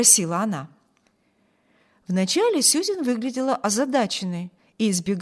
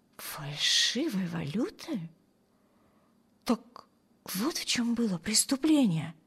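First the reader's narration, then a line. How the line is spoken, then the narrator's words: Muttered under breath. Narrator (Russian): пробормотала Эми себе под нос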